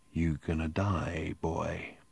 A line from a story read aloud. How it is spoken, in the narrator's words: the barman murmured quietly at Ford Prefect